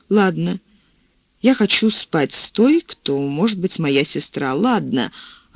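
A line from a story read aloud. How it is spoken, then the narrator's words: Very quiet, calm, to himself. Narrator (Russian): он сказал себе очень тихо и спокойно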